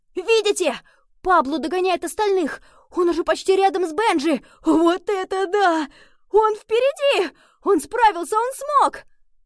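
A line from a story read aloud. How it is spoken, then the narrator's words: Joyful shouting. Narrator (Russian): Новые другие филидиксы радостно закричали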